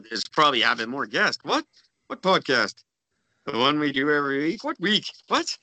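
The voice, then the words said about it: Imitates another person's voice. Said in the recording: “That's my impression of Gord, by the way. ... And it's quite accurate.”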